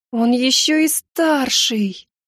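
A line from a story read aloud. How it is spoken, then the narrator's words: Moaned. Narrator (Russian): простонала я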